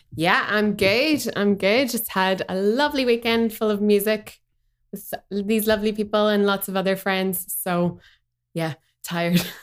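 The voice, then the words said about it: Strong Northern Irish accent. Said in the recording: “we have the Nordie over here, where a big Northern Iron accent on.”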